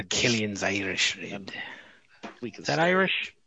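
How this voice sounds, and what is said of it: Put-on Irish accent, sounding Scottish. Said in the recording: “It sounded Scottish. ... No, I meant my accent. ... I think my accent was more Scottish than Irish.”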